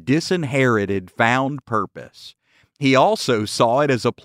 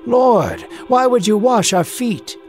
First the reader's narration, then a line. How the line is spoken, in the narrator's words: Peter, astonished by what was happening, shouted